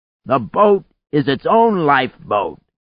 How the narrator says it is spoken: he shouted

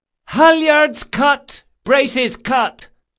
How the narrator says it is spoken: shouted Del Mastro, plainly enjoying her role as an ordinary buccaneer

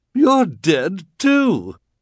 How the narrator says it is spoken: she cried

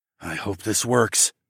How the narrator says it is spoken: I muttered

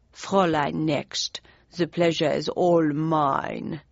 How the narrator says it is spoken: he intoned in a heavy German accent

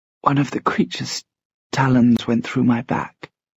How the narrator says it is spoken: whispered

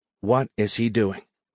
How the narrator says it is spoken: Perkins whispered to Irene

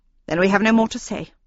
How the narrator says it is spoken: she announced in a haughty tone of voice

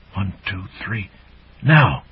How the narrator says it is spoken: a voice she identified as Friar Butty's whispered

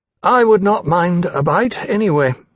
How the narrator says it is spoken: he said drowsily

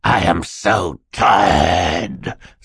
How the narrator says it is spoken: Stefano snarled

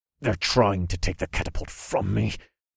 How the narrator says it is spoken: I growled as I used all my strength

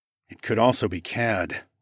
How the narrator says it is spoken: I grumbled

